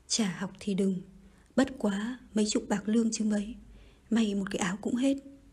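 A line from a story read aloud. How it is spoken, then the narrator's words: Worried sigh. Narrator (Vietnamese): Bà Phủ vẫn lo ngại thở dài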